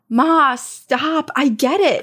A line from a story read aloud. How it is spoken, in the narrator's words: my mom had to finally yell